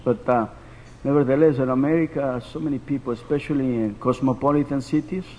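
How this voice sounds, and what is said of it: Spanish-accented English. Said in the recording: “excuse my accent. ... my first language is Spanish”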